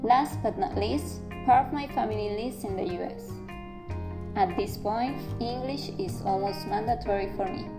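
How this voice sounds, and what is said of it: Venezuelan Spanish accent in English. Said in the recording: “do I still sound as Sofia Vergara speaking my family? Also yes... this Venezuelan accent”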